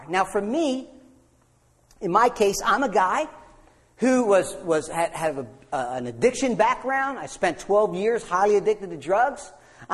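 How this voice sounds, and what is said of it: Bronx accent. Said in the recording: “I'm a guy that has a fake Bronx accent.”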